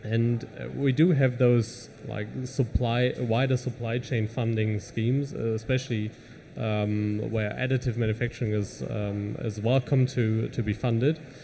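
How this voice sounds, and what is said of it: German accent. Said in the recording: “You could tell by my accent probably that I'm from Germany.”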